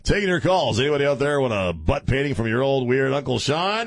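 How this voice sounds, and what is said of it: Zany FM radio DJ voice. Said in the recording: “the zany FM voice”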